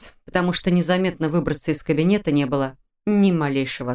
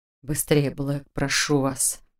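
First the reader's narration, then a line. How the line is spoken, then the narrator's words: Quiet near-growl. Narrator (Russian): Почти прорычал он тихо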